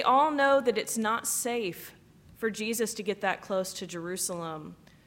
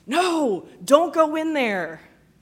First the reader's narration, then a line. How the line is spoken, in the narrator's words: audience members at a horror movie yelling at the screen